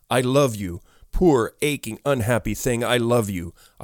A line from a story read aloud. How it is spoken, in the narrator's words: I cried through hot tears